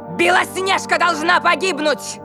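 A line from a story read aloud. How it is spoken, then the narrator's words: Shouted. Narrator (Russian): крикнула она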